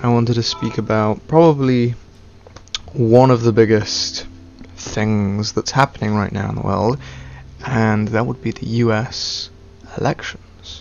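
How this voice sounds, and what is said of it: Stereotypical British accent, dropped T's. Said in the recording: “I have a stereotypical British accent. Can't pronounce my T's.”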